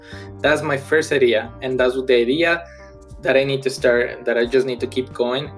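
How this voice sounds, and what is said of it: Non-native English accent. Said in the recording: “English is my second language ... you noticed my accent”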